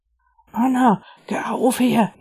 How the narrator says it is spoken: whispered in reply

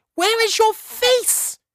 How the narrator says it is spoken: cried

